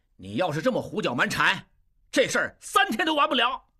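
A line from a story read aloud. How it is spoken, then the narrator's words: Loud, angry. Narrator (Chinese): 应震高声怒道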